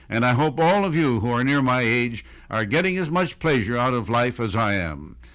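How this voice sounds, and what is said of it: Commanding classic radio voice. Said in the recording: “that, my friends, is a radio voice, right? ... That's a command, right?”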